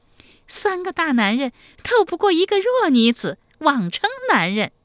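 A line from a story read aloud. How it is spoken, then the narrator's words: Coquettish giggling. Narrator (Chinese): 齐二娇呵呵娇笑说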